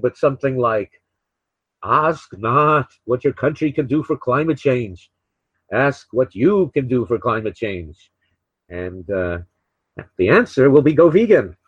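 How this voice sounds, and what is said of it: Put-on New England accent. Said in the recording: “saying go vegan in a New England accent ... that was my best New England accent”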